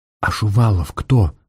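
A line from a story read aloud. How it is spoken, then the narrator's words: Whisper. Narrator (Russian): прошептала Варя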